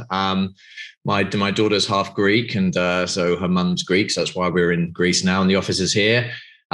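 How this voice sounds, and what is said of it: British accent. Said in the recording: “I'm obviously from the UK, as you know, from my accent.”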